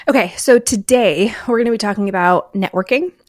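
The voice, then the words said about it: Excited teacher voice. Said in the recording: “that was my teacher voice just getting really excited”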